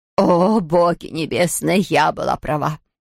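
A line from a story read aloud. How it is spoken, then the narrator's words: Moaning. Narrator (Russian): простонала Хедвиг Кюмельзавт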